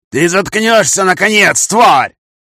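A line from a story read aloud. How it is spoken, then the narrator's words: Shouting again. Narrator (Russian): крикнул он снова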